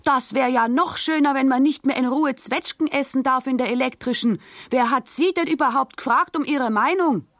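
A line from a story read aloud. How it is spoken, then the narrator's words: Angrily shouted back. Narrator (German): Die Karlstadt schrie erbost zurück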